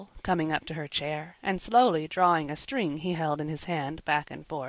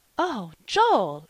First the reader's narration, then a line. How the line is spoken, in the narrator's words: exclaimed Polly, quite shocked